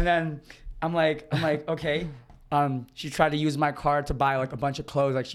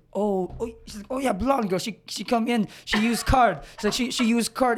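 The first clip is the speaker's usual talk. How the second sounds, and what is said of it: Put-on vague foreign accent, maybe Brazilian. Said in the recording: “I don't know what accent I'm trying to go for ... Brazilian. ... has some kind of accent”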